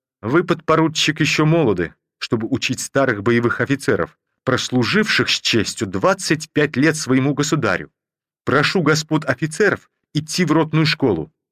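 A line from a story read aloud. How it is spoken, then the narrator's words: Angry. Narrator (Russian): закончил он сердито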